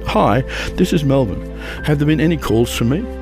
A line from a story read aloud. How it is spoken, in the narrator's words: her dad calmly said